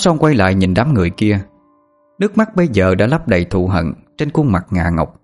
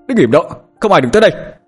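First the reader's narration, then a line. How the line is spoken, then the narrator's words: Commanding shout. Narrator (Vietnamese): Hải hét lên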